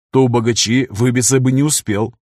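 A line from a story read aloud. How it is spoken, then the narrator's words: Snorting smirk. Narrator (Russian): хмыкнул Афанасьев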